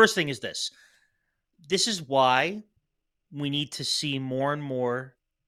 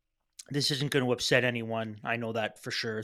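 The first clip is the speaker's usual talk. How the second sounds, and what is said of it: Sarcastic tone. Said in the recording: “I'm being sarcastic”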